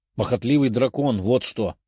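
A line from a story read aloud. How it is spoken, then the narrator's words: Displeased grumble. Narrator (Russian): недовольно проворчала Лиза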